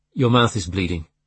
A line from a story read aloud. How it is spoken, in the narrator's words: said flatly